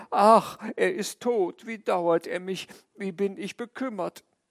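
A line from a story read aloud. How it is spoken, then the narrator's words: Sorrowful lament. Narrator (German): Meine Frau betrübte sich auch, wir jammerten beide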